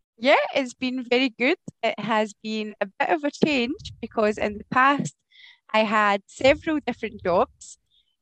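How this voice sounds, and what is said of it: Scottish Glasgow accent. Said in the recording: “As you can maybe tell from my accent, I am from Scotland. I am from the city of Glasgow in Scotland”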